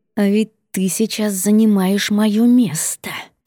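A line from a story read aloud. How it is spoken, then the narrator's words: Hissed. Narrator (Russian): прошипела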